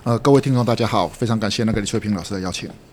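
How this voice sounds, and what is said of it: Mandarin with slight Singaporean flavor. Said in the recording (Chinese): “您的那个口音有点特别...我觉得有点新加坡的味道”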